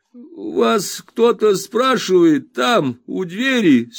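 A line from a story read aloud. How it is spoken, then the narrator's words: Strained, sleepy. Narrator (Russian): с трудом выдавив из себя эти слова, мистер Тапмен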